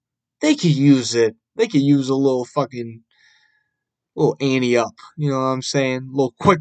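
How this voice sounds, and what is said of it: Usual voice. Nothing is said of it.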